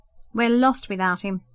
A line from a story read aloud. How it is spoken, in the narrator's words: the woman laughed